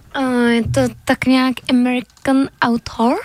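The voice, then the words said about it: Exaggerated English accent. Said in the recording (Czech): “To je přízvuk, pane bože.”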